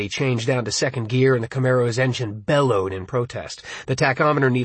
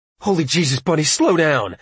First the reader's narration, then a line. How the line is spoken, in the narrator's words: Richie wailed